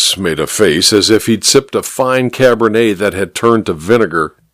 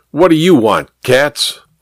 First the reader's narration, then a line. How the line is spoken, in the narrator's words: Kramer barked